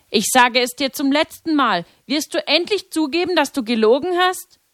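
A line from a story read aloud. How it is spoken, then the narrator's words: Calling out. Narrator (German): rief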